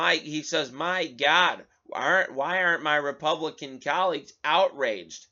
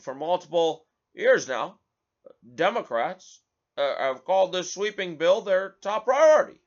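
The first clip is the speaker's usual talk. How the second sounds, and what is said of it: Imitates another person's voice. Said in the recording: “do the McConnell voice.”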